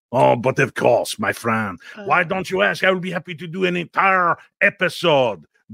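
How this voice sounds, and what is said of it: Put-on French accent. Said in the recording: “will you do a French accent for us?”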